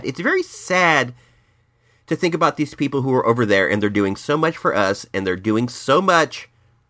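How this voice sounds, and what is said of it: Sick, congested-sounding voice. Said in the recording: “Please forgive my voice. I am fighting a cold right now, and it's pretty bad.”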